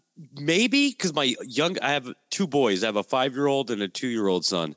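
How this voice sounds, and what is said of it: Slightly raspy, sick voice. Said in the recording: “everybody in my house wakes up sick or with like a sinus infection ... excuse my voice if it sounds a little raspy.”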